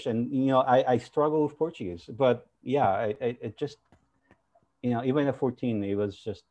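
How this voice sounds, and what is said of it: Speaks English with an accent. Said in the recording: “I still have my accent, right?”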